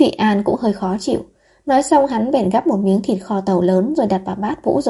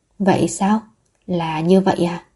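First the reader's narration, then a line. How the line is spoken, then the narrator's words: Sighing, near tears. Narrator (Vietnamese): Lưu Trường Khánh thở dài, hốc mắt hơi đỏ lên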